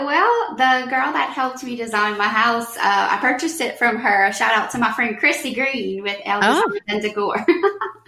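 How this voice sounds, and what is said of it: Regional American accent. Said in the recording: “I love your accent. I know you're going to say you don't have one, but you do.”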